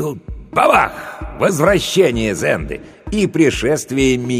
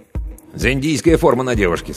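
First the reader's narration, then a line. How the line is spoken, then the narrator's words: Plain. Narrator (Russian): сказал Виталик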